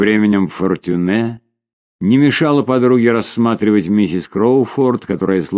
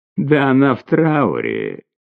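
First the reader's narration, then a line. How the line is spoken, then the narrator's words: Laughing woman. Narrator (Russian): хохотнув, сказала креолка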